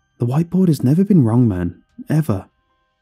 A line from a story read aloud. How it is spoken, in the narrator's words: With an almost somber look on his face, he just sighed and said